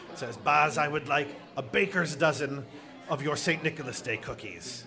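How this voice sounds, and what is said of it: Old witch character voice. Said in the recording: “I'm going to attempt to do my best witch impression here.”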